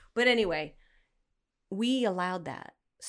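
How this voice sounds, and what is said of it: Usual voice. Nothing is said of it.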